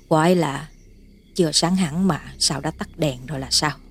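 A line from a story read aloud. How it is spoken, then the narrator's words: Lip-smacking mutter. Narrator (Vietnamese): bà Tám Năng chép miệng lẩm bẩm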